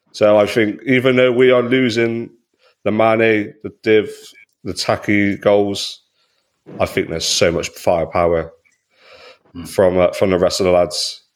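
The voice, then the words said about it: Speaker with a noticeable accent. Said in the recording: “she's loving your accent”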